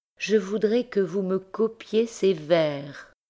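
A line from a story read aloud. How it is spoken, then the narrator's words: Sighing, languorous voice. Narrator (French): disait-elle d'une voix soupirante et langoureuse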